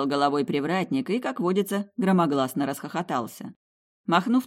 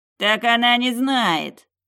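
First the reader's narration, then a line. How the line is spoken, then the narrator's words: Deep bass voice. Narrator (Russian): Пробасил Бонсайми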